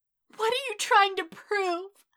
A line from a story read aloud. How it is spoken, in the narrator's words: Izuku cried desperately, eyes blurred with tears